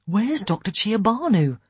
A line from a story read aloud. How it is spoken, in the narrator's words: Ian said anxiously